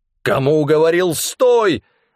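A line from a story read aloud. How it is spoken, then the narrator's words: Angry growling. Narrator (Russian): рассерженно рычал Амнис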